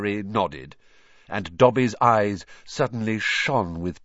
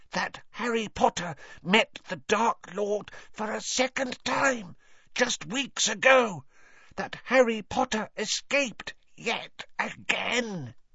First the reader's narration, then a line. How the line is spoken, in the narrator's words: he said hoarsely